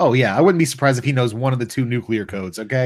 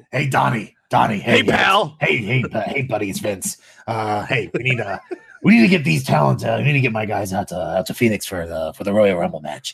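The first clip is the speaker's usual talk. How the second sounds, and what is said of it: Bad impression of another person's voice. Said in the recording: “doing a bad impression”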